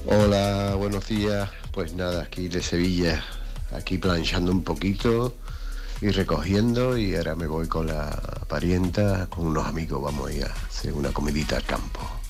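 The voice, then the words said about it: Deep announcer-like, just-woken-up voice. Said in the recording (Spanish): “Tiene voz de locutor, ¿eh? ... De recién despertado.”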